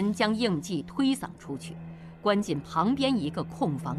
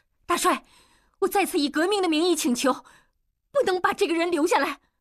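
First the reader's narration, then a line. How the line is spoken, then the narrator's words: Loud voice. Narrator (Chinese): 莲花大声说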